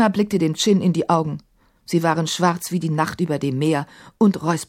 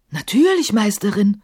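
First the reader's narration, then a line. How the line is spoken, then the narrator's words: Called out. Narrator (German): rief Kafur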